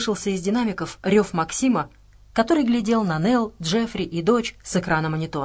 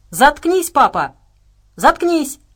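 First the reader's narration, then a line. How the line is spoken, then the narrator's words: Shouted. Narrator (Russian): прокричала Саша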